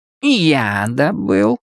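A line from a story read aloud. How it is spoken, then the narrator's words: Insolent, glad, whining wolf. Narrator (Russian): отвечал волк наглым, отчасти радостным, отчасти скулящим голосом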